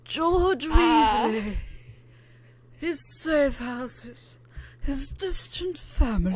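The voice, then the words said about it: Voldemort character voice. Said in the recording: “my Lord Voldemort impression ... a really good Voldemort”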